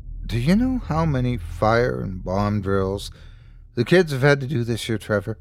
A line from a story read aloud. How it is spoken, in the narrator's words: She asked quietly